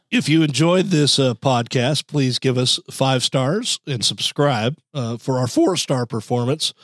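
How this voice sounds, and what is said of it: Hoarse voice. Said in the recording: “hoarse voice and someone who has a cough ... this cough, this voice on the mend”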